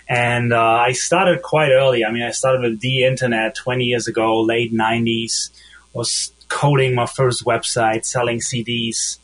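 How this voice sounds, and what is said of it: German accent. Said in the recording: “I'm from Germany, like you probably hear from my accent.”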